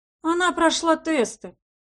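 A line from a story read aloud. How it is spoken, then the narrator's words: Sighed. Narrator (Russian): вздохнул Мэрион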